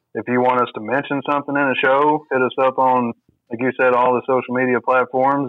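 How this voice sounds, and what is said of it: Hick accent. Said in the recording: “my hick accent”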